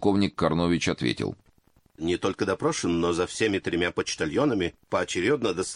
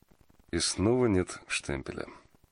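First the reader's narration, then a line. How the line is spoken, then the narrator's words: Thoughtful. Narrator (Russian): задумчиво произнес Фандорин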